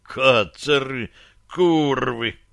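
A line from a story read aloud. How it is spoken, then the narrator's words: Knight growling mid-fight. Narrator (Russian): рычал из-под поднятого забрала салада рыцарь, рубя вокруг себя большим мечом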